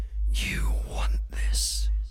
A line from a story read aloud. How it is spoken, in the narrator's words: I whisper into your ear